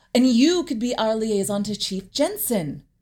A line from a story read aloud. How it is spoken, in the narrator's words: I said brightly